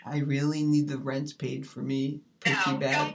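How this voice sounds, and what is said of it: Silly put-on voice. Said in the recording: “changing your voice when you talk? That is so ridiculous ... that silly voice”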